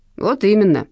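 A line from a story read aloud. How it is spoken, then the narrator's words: Stern. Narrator (Russian): строго сказал дядя Вася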